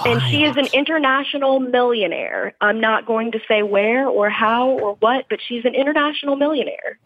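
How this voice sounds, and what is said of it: Genteel Southern American accent. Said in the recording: “I hear a Southern accent from a nice person, and that feels like very genteel to me”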